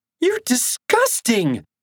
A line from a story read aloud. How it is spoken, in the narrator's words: screeched